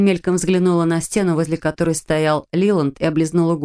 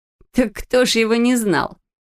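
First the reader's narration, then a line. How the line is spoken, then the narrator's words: Laughing. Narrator (Russian): засмеялась Френ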